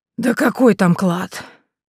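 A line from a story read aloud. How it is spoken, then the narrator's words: Heavy sigh, old woman. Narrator (Russian): Бабуля тяжело вздохнула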